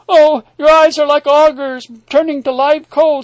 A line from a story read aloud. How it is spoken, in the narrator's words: cried